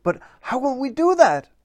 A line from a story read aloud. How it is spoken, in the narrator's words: exclaimed Paul Troll